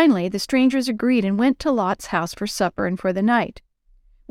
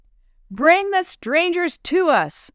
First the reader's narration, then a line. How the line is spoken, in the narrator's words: crowd shouted